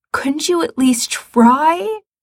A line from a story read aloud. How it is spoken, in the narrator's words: Gerard says desperately